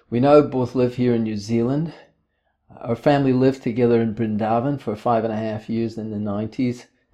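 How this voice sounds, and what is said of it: Scottish accent. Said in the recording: “Originally, I'm from Scotland. You might pick this accent.”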